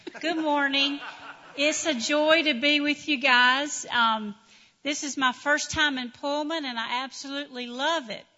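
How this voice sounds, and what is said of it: Speaks with a noticeable accent. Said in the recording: “I just want you to hear her voice because it's beautiful. ... so you could hear my accent.”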